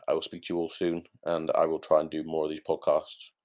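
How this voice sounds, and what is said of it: Slightly croaky voice. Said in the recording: “that's why my voice is a little bit more croaky”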